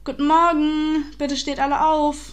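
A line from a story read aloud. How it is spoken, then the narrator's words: Called out. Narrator (German): rief Miss Forrester, während sie an den Zelten vorbeilief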